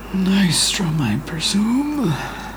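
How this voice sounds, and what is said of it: Very raspy elderly voice. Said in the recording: “you hear a very raspy voice”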